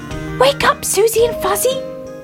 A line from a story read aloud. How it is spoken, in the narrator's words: he cried